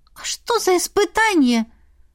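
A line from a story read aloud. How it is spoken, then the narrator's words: Timid squeak. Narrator (Russian): пискнула Эрма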